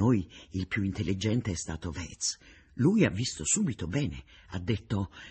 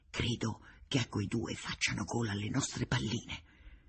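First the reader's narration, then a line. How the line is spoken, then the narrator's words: Quiet speech. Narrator (Italian): ho detto piano a Connai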